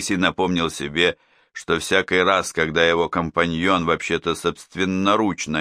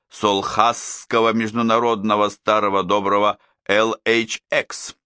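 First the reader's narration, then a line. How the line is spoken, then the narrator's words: Gleeful malicious continuation. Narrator (Russian): продолжал Минору, злобно сияя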